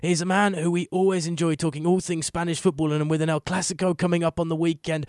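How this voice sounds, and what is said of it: Strained, failing voice. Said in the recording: “My voice is dying here today”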